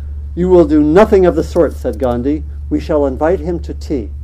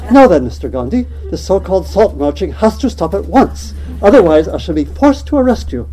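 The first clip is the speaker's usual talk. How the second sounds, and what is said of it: Attempted British accent. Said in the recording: “That's not really a British accent.”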